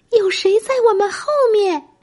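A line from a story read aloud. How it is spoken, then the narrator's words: Shouting. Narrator (Chinese): 他大叫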